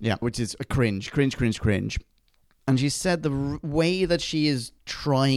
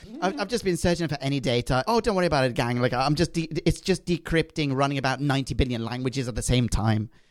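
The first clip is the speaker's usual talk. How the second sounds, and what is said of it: Imitated accent of a character. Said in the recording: “I'm not going to do the accent. Fuck it, I'm going to do the accent.”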